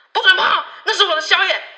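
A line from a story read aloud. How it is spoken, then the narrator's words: Furious. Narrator (Chinese): 猪只大怒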